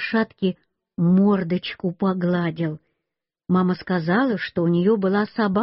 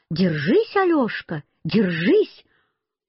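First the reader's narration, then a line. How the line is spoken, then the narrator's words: Shouting woman. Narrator (Russian): Она мне кричала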